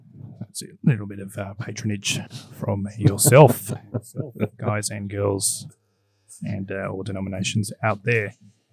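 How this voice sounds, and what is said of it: Strained, hoarse voice. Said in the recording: “my voice is about to lose it. I feel like I've been coming down with a cold”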